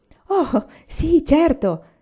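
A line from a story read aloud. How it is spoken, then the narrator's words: Exclaimed. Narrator (Italian): esclamò Laura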